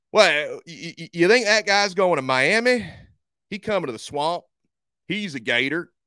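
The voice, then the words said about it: Put-on Florida Gator fan accent. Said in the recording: “That's the accent that every single Gator fan has.”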